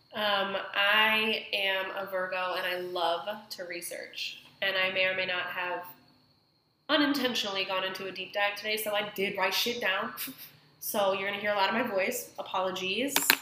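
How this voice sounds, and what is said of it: Congested voice from a cold. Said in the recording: “I have a cold. I don't know if you can tell”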